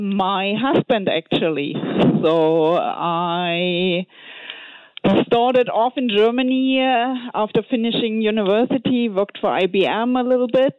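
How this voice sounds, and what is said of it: German accent. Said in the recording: “from your accent, you're from Germany”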